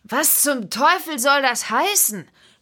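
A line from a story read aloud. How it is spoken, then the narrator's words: Calling out. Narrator (German): rief er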